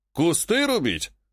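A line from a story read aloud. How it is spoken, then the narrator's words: Chuckling. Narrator (Russian): хохотнул Греков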